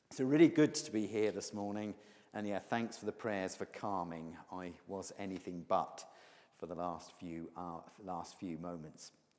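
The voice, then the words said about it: Broad accent. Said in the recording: “if you think my accent is broad”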